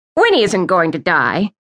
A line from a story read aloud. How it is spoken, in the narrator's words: Aunt Tilly scoffed